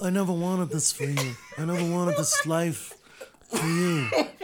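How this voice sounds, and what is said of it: Godfather character impression. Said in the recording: “my Godfather impersonation”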